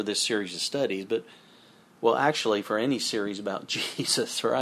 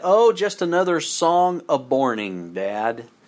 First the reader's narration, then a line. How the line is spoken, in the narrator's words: he said